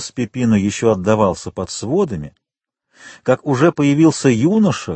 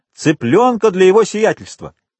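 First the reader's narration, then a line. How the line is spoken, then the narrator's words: Full-throated shout. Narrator (Russian): Пепино крикнул во все горло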